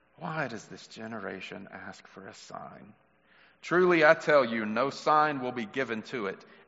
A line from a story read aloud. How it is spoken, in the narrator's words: He sighed deeply and said